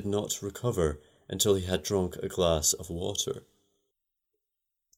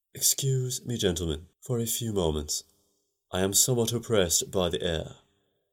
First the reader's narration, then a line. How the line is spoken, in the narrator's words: He faltered